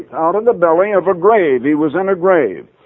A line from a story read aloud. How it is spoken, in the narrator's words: cried I